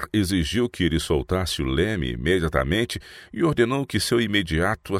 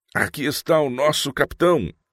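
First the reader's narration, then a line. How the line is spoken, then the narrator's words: Crowd exclaiming. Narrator (Portuguese): exclamou a multidão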